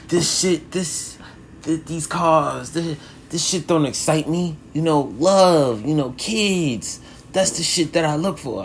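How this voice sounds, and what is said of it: Poor Mike Tyson impression. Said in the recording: “I think of Mike Tyson ... he was like ... I got a terrible accent.”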